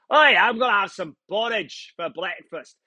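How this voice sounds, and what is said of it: Put-on Scottish accent. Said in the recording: “you almost want to say it with a Scottish accent.”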